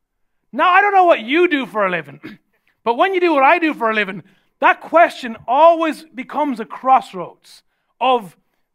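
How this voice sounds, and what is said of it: Irish accent. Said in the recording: “Oh, your accent, where are you from?" And I said, "Sure, I'm from Ireland."”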